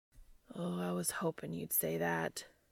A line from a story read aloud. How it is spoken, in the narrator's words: groaned Dean